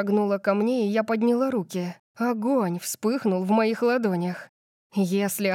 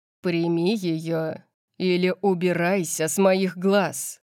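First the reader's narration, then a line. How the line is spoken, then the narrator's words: Growl. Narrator (Russian): прорычал он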